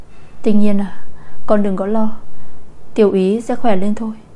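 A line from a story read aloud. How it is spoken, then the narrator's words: Gentle, comforting. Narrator (Vietnamese): Chu Tuệ thấy cô khóc đau lòng như vậy thì dịu dàng an ủi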